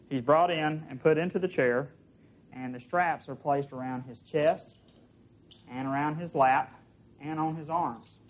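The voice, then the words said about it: Southern American accent. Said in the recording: “One of my favorite styles of Southern accent.”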